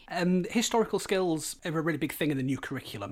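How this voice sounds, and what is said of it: Hull English accent, drops H. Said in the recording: “deciphering your accent ... actually from Hull ... if you come from Hull, you usually drop the H ... it is a bit of a peculiar accent”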